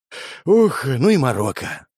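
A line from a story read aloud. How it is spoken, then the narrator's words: Sigh. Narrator (Russian): вздохнул я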